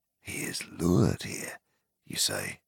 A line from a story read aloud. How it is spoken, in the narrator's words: said Faramir in a low voice